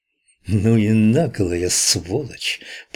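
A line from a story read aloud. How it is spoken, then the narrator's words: Hissed. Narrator (Russian): прошипел кто-то за моей спиной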